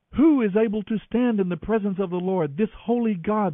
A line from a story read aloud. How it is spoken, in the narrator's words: they cried out